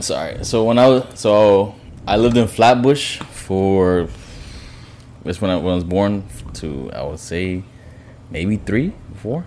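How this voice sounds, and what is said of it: Brooklyn accent. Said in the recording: “Is that a Brooklyn accent? ... It's a Brooklyn accent.”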